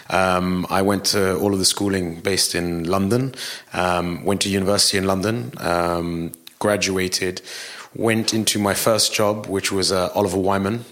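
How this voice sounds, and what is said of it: British accent. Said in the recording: “the very British accent”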